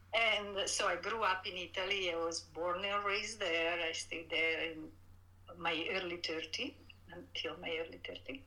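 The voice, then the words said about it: Italian accent in English. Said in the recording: “I'm from Italy, so everybody probably can detect from my accent”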